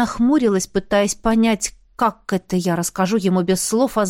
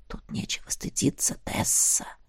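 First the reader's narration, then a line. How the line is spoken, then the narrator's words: Whisper. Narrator (Russian): прошептал Эштон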